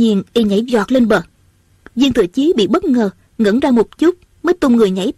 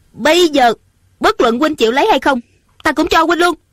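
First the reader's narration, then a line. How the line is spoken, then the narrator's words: Angry. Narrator (Vietnamese): Ung Thanh giận dữ nói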